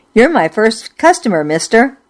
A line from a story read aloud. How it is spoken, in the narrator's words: I blurted